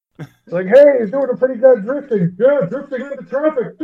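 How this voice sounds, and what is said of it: Waldorf Muppet character impression. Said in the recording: “you did a Waldorf impression”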